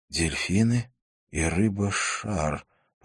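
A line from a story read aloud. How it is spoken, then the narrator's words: Muttered in dawning realization. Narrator (Russian): пробормотал Жак, до которого только что дошел смысл сообщения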